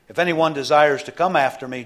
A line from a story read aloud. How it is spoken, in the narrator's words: Jesus said